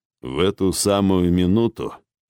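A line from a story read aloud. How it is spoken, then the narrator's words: Muffled telling. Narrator (Russian): глухо поведал Архонт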